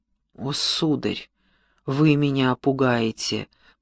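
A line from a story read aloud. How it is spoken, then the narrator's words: Moan. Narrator (Russian): простонал Персиваль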